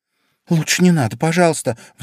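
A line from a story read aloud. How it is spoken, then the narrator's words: Pleading. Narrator (Russian): взмолилась Алиса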